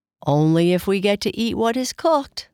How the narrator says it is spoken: laughed Kai Kai

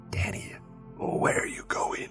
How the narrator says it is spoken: the voice hissed

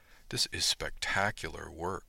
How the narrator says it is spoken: said softly

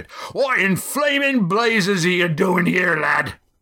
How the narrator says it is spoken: demanded Roaring Jack

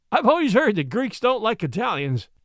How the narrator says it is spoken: Charlie laughed

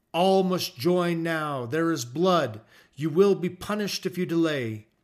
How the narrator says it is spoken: he exclaimed

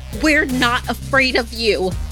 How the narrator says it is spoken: Ani raised her fist, shouting through the window at the skinwalker

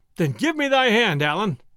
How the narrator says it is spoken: cried Robin

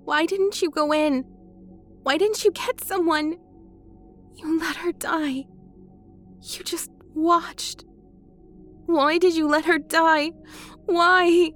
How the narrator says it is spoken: she asked, choking, becoming frantic

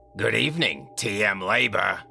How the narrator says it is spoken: she said with a raspy voice

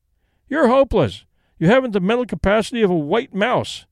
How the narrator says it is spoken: he cried

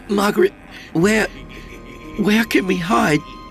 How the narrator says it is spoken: I croaked

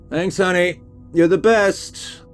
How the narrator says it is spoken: I shouted out to her

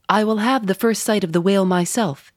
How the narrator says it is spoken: he said

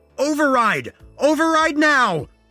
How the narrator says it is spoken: I screamed

